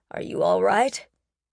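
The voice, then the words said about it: Deep male character voice. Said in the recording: “a deep voice asked”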